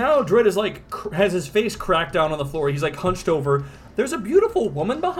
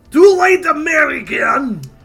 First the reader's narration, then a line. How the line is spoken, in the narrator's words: the strong man yells out